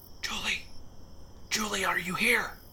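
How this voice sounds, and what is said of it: Loud stage whisper. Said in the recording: “whispering so loudly... Either whisper quietly, so no one can hear you. Or shout... your ear-splitting whisper”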